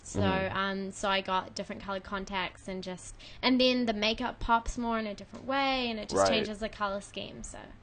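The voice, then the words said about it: New Zealand accent. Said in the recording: “your accent is awesome ... She was born in New Zealand.”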